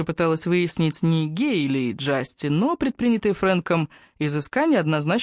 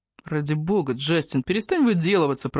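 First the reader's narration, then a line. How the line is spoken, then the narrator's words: Grumbled. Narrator (Russian): проворчал Раф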